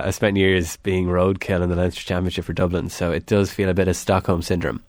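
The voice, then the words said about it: Irish Longford accent. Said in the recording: “as my accent will tell you, I'm from Longford”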